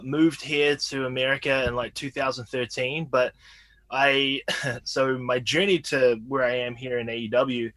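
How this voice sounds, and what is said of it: New Zealand accent. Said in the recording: “I can hear my accent. I'm from a small town in New Zealand”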